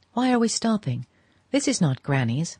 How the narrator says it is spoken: Madame Olenska exclaimed

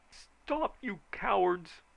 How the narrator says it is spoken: screamed Mayor Middleton

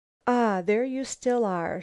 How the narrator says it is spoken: she sighed

